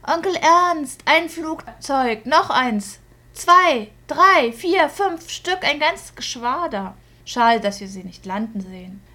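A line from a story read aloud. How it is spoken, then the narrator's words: Sudden excited call. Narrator (German): rief er plötzlich begeistert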